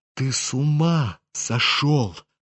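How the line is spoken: Sudden whisper. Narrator (Russian): прошептал вдруг Птицын

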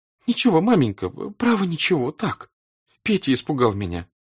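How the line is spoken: Tearful, sob-choked speech. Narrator (Russian): говорила, стараясь улыбаться, но слезы все текли, и всхлипывания сдавливали горло

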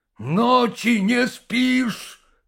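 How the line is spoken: Shouting. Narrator (Russian): крикнул Тимофеев

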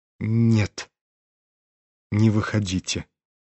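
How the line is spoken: Breathless whisper. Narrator (Russian): прошептал он наконец и с усилием перевел дух

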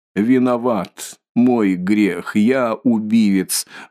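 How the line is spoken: Sudden, breathless, fairly loud. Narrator (Russian): вдруг произнес Николай, как будто несколько задыхаясь, но довольно громким голосом

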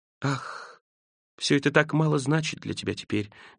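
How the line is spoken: Quiet speech. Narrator (Russian): говорила она тихо

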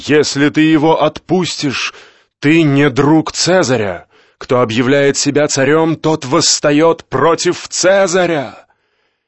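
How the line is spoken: Crowd shouting. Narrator (Russian): закричали

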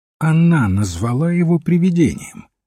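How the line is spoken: Calm small man. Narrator (Russian): спокойно сказал маленький человек

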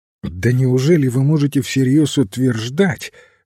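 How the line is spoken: Incredulous exclamation. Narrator (Russian): воскликнул Андерхилл с недоверием

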